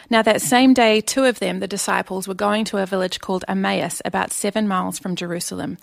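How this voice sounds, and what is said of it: Speaks with a noticeable accent. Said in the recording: “I hope you can understand my accent.”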